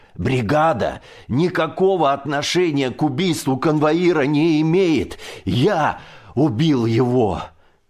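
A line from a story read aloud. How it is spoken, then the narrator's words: Shouting. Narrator (Russian): прокричал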